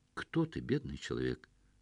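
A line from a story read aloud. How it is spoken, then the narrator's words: Flat colorless voice. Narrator (Russian): совершенно бесцветным голосом спросили из самого темного угла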